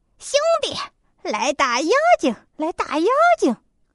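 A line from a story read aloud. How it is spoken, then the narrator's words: Shouting. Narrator (Chinese): 猪八戒这样一喊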